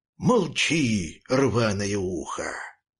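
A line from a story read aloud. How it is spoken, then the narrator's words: Deep bass dog. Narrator (Russian): пробасил рыжий пес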